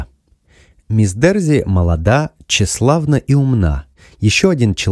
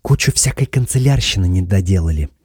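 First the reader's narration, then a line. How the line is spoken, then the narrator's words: Whispered. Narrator (Russian): прошептала она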